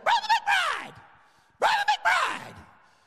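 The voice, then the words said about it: High squeaky imitated voice. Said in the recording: “this high, squeaky voice”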